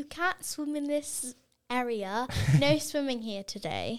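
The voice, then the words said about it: Fairly good put-on British accent. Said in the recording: “That sounds British... That's pretty good.”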